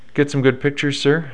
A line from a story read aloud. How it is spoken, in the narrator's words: I asked him cheerfully